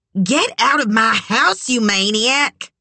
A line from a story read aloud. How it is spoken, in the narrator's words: his mother snarled